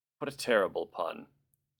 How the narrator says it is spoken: Jean groaned

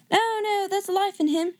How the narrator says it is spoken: shouted another

